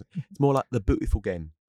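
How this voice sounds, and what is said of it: Bad put-on English accent. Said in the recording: “that's not a good English accent... It's bad. That was a bad English accent.”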